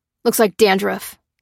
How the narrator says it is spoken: snorted

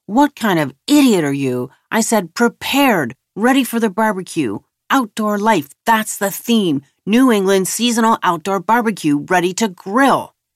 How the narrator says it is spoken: The host was shouting

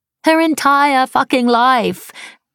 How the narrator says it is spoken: repeated Shelley, laughing

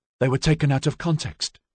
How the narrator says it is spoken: she muttered

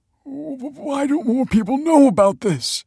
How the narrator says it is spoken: He stammered

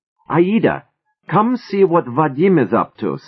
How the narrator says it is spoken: Sava cried in a voice pitched high with excitement

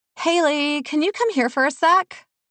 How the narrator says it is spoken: Bree hollered from somewhere

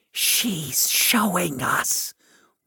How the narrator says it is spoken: whispered the man

